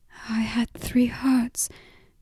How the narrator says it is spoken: murmured again

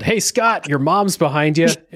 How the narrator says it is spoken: a guy from the stands yelled

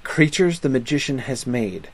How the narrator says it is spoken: said the gentleman

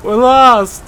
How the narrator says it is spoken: He cried

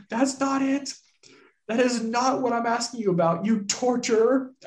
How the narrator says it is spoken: shouted, shaking with anger

